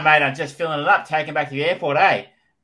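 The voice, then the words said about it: Exaggerated Australian accent. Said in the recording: “I do get like significantly more Australian”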